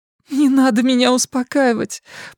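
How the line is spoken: Tearful. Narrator (Russian): проговорила она сквозь слезы

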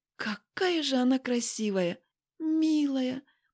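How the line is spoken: Trembling voice. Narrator (Russian): произношу дрожащим голосом

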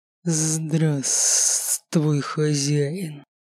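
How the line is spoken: Hissing guardian spirit. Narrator (Russian): Прошипел дух-хранитель

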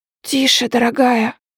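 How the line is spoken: Smiling whisper. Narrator (Russian): с улыбкой шепнул муж

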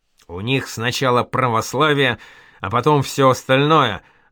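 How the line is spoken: Growl. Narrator (Russian): рыкнул Эльму Аль-Лим

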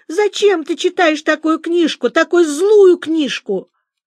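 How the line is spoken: Crying and shouting. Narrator (Russian): Катя заплакала и закричала

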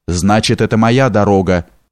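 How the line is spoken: Harsh cracking voice. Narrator (Russian): сказал невидимый голосом, напоминающим треск сердито захлопнутой двери

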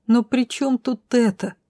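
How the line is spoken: Sob. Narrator (Russian): всхлипнула

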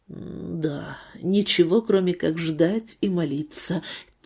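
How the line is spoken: Quiet. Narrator (Russian): тихо подтвердил Стивен

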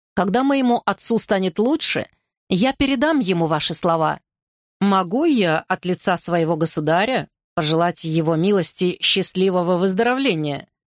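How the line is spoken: Plain. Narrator (Russian): спросил Карос

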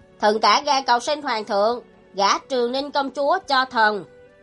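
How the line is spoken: Resounding, clearly enunciated reply. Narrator (Vietnamese): Nguyên Tử Độ âm thanh vang dội từng chữ tinh tường đáp

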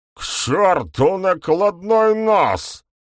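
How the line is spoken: Roared. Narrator (Russian): взревел ГМ

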